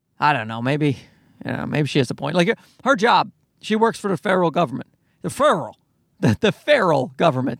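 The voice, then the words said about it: Newfoundland accent. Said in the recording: “My accent's getting worse. I've moved away from Newfoundland ... my accent seems to be getting worse, not better.”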